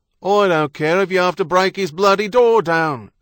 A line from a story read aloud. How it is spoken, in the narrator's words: someone out there shouted